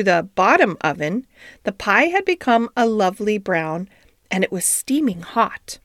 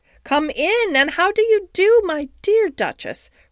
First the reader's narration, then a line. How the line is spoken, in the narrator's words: cried Ribby